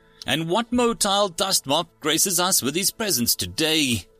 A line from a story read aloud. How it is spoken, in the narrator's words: Bob asked cheerfully